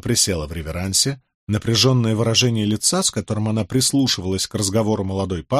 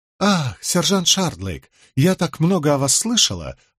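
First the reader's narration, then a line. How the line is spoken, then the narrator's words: Exaggeratedly polite. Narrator (Russian): произнесла она преувеличенно любезным тоном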